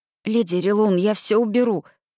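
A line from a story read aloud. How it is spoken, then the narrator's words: Hissed through teeth. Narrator (Russian): процедила я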